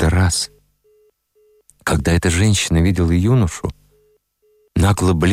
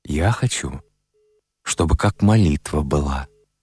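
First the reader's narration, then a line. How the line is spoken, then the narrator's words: Quiet speech. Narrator (Russian): тихо сказал Сима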